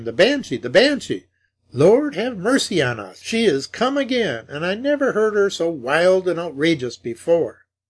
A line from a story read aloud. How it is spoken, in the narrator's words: exclaimed